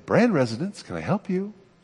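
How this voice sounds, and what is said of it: Pleasant, polite phone voice. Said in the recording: “put on my pleasant voice”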